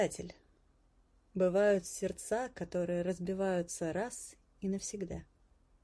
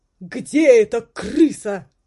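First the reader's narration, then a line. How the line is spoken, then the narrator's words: Yelling. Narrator (Russian): завопил король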